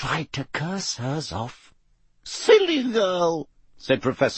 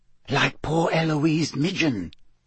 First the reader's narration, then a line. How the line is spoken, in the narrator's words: said Hannah Abbott, a Hufflepuff, in a hushed voice